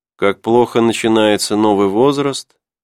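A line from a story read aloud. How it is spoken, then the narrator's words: Muttering. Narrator (Russian): пробормотал Филимон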